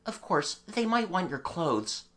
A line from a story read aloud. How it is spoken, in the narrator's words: he had to admit rather falteringly